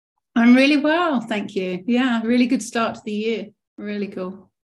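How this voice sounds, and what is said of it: English accent from southeast England. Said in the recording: “that lovely, lovely, what I call over here in the U.S. accent ... I'm from Kent, Rochester originally, which is just south of London”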